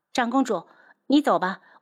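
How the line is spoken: Suppressed anger, disgust. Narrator (Chinese): 柯雪觉得恶心，忍着心头的怒火道

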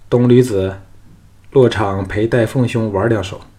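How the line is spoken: Indifferent. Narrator (Chinese): 李渊淡淡的说

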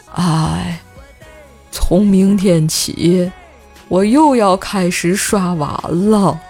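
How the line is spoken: Deep sigh, sad voice. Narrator (Chinese): 瘦爸深深地叹了一口气 瘦爸忧伤的声音悠悠地传了过来

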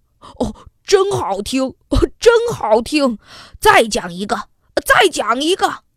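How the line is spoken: Father, loud. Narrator (Chinese): 爸爸大声地说

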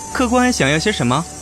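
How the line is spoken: Warm, cheerful laugh. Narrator (Chinese): 小书生 热情地笑道

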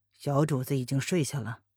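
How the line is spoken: Cool, indifferent question. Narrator (Chinese): 黑影…不由得开口，淡淡的挑眉问道

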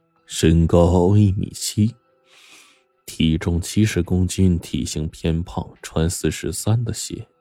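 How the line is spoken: Soft. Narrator (Chinese): 轻声说

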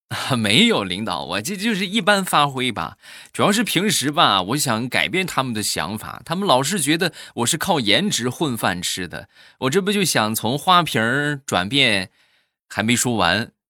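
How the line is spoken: Slight smile. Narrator (Chinese): 这个妹子当时微微一笑，然后就说

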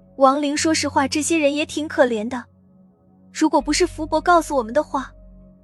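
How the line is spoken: Sighing lament. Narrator (Chinese): 他感叹道

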